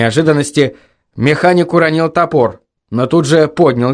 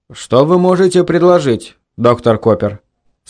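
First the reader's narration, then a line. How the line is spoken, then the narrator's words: Calm question. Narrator (Russian): спокойным голосом спросил Гэри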